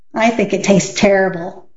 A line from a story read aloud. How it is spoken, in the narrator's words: said Kathy